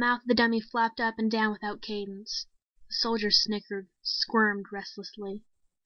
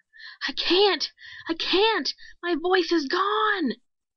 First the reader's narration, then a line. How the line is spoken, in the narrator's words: He was screaming and clutching at his throat